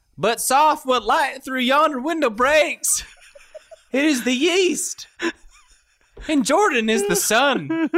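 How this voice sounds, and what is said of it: Thick Kentucky drawl. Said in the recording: “their little thick Kentucky accents ... It's part of the accent ... It's a drawl ... his Kentucky accent”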